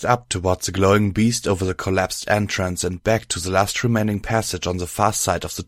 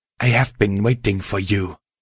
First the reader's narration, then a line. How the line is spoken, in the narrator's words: the monster snarled